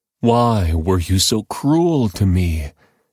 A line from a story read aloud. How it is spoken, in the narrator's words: Jacob moaned